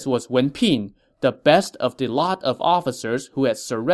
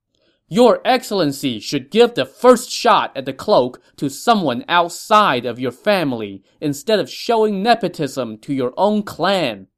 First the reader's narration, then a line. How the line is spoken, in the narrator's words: an officer from the Green Group shouted